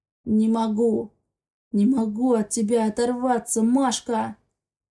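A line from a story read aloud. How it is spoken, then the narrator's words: Hoarse male voice. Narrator (Russian): Хриплым мужским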